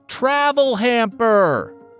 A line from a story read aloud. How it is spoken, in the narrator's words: the man yelled back